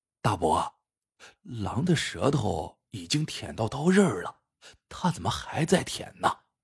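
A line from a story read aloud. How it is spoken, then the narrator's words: Whispered question. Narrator (Chinese): 悄声问老冯头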